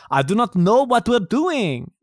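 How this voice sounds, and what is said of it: Attempted Russian accent, sounding Transylvanian. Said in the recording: “Was that the right accent? ... What's Russian? ... That sounded like Transylvanian.”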